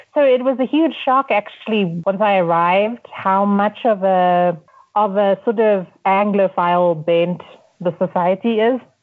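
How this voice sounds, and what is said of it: Quasi-British accent. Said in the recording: “my, you know, quasi British accent”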